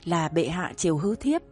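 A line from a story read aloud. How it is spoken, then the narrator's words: Giggling, soft and coy. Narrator (Vietnamese): Vương Chi Lăng cười khúc khích, nhỏ giọng nũng nịu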